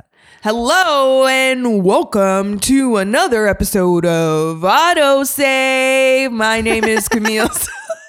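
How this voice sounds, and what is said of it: Deep announcer voice. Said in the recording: “Your voice got so deep there for a sec... my announcer voice... your announcer voice”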